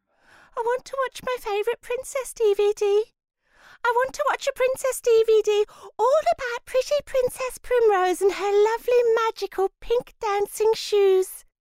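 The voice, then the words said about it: Especially whiny child's voice. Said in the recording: “in an especially whiny voice”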